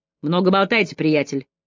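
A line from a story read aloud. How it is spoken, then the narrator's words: Cold. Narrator (Russian): холодно произнес Вайланд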